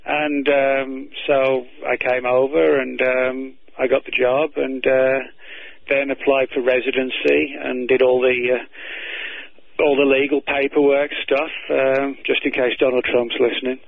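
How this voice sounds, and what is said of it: British accent, slightly faded. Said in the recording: “I hear your British accent is fading a bit.”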